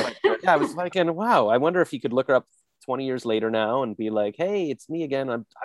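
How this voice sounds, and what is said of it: Usual voice. Nothing is said of it.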